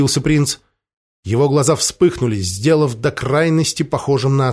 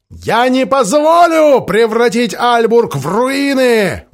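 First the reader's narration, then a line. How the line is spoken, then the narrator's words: Roar. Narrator (Russian): взревел Синклер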